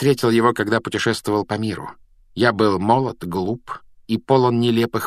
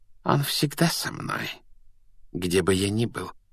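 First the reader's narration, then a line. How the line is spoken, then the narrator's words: Soft. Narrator (Russian): мягко ответил Квирл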